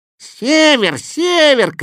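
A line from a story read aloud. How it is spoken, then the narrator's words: Shouting while fleeing. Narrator (Russian): кричал кот, улепетывая со всех лап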